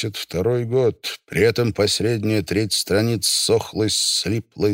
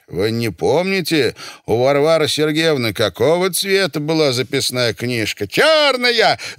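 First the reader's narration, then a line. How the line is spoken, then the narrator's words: Shouted. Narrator (Russian): закричал Василий Иванович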